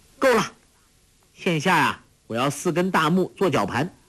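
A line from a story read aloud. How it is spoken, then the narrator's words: Calling out. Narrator (Chinese): 黄蓉 叫道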